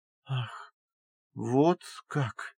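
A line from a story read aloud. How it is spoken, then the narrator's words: Muttered. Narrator (Russian): пробормотала она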